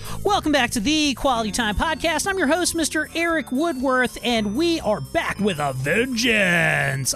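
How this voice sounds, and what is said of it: Silly radio announcer voice. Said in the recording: “a silly radio voice that I did for you right there”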